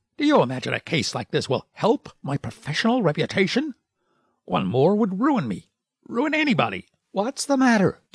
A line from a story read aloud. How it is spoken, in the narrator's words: snapped the last word out in almost one syllable, then he turned away, muttering